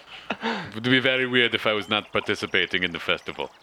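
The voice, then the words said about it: Exaggerated Russian-sounding accent. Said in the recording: “It's getting more and more Russian ... accent's going so far south”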